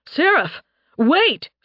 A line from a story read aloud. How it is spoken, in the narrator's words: Phaeus shouted